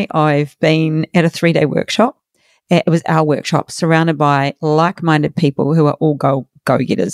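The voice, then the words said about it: Slightly rough, worn voice. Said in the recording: “you might hear my voice is a little bit dodgy today.”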